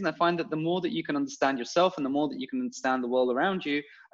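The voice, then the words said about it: London English accent. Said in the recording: “you can get away with inarticulate sentences with that accent... is from London”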